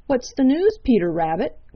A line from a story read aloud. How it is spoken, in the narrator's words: cried Redwing